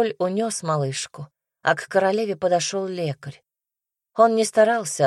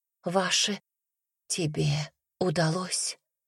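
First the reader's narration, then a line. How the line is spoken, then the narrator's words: Wheezing rasp. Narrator (Russian): просипела Маргарет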